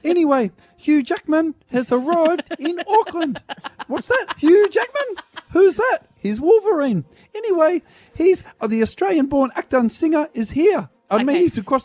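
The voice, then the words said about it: Put-on Kiwi accent, very high pitch. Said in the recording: “Why does speaking in a Kiwi accent mean you speak right up about five octaves? ... Start again. Go down an octave.”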